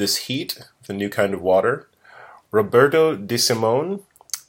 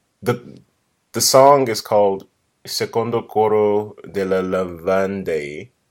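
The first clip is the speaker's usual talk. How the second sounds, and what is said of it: Italian-accented pronunciation. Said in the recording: “Nice, right? Accent. ... From your time in Italy.”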